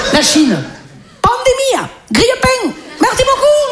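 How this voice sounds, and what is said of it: Put-on foreign accent. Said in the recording (French): “Un accent. Je viens de faire un accent.”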